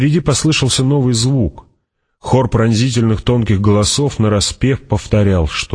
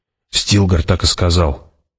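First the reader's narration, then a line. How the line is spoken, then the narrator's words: Doubtful mutter. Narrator (Russian): пробормотала в ее голосе звучало недоверие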